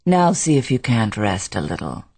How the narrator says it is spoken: He said tenderly

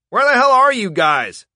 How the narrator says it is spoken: Stalin yelled over the radio

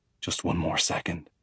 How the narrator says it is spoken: he murmurs against my ear

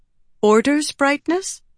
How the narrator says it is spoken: Shallan asked, timidly

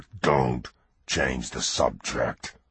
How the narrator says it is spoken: Lindy growled

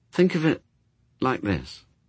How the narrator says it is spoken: he said quietly

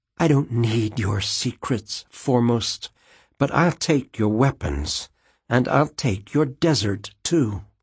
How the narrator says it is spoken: whispered

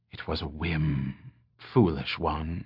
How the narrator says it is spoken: she whispered

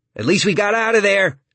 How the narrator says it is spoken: Starkey yells after her

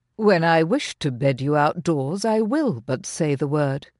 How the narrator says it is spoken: he answered

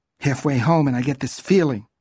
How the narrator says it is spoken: Shirley said in an unsteady voice

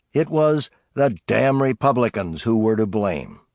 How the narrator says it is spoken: Joe Shannon complained bitterly

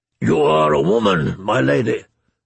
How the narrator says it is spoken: the Great John rumbled in his deep voice

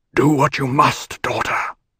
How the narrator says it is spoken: he whispered

